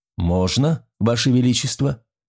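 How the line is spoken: Calm reply. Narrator (Russian): спокойно ответил Румбер

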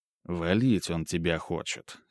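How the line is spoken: Serious tone. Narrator (Russian): серьезным тоном произнес Ремезов

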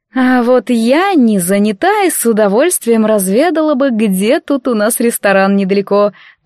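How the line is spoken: Languid cooing. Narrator (Russian): томно проворковала Анфиса

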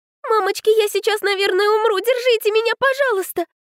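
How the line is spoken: Frightened babbling aloud. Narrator (Russian): Пролепетала вслух Котлетова

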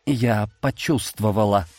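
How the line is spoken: Frightened. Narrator (Russian): произнесла она, испуганно глядя на башню

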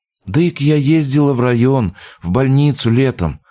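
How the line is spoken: Sighing. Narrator (Russian): вновь вздохнула мать

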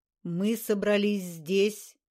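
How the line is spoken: Sudden deep ringing chant. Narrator (Russian): Неожиданный басовитый голос нараспев протянул слова, звоном наполнившие пространство

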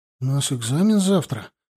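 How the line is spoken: Uncertain objection. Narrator (Russian): неуверенно возразил ему молчавший до этого Мишка

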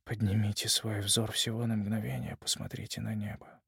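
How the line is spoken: Quiet, unconscious young man. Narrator (Russian): молодой человек тихонько, сам того не осознавая, произнес

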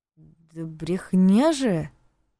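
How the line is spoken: Uncertain drawl. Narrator (Russian): неуверенно протянул Лёха

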